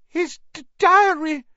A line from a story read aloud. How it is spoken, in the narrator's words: Ginny sobbed